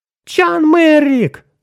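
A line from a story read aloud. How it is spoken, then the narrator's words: Yelling. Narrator (Russian): завопила Нарна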